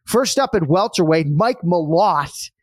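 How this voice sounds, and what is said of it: Put-on Boston accent. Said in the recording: “Love saying that in a Boston accent, huh? You punch that T”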